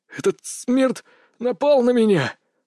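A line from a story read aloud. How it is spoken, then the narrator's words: Breathless exhale. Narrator (Russian): выдохнул Сергей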